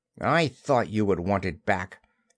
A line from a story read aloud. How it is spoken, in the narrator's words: he said a little bitterly